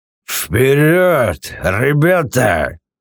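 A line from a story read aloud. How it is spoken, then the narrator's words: Drunken growl. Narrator (Russian): Скорее прорычал, чем сказал Хороняка, тот действительно пьян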